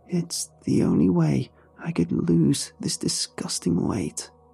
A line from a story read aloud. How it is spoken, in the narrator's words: weakly muttered